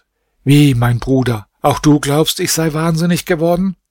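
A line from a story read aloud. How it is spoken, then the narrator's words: Exclaiming. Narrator (German): rief aus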